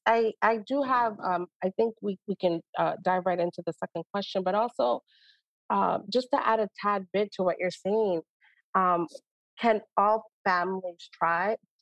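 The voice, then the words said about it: Speaks with a noticeable accent. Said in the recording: “Sorry, my accent comes out sometimes”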